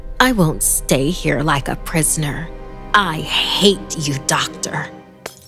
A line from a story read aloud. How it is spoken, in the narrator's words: Through gritted teeth, she added with a grin